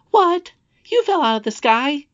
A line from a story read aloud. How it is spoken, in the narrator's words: he exclaimed